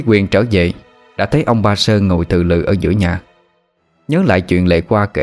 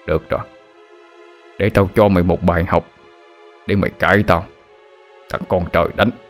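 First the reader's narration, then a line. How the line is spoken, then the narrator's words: Angry muttering. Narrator (Vietnamese): ông mặt đanh lại, miệng lẩm bẩm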